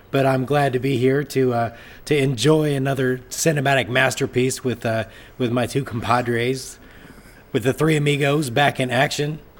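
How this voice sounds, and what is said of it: Voice sounds sick, under the weather. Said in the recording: “as you can tell from listening to my voice is still a little under the weather”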